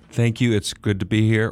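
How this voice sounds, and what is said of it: George W. Bush impression. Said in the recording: “presidential impersonator ... he's been impersonating George W. Bush for many years”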